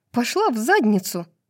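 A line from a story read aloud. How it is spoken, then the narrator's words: Snapped. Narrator (Russian): огрызнулась Брайс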